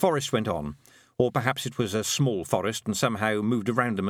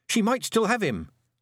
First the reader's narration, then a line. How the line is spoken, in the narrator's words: said Tiffany, gripping the panhandle nervously